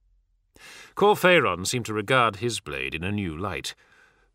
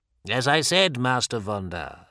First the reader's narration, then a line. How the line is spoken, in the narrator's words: said Erebus coldly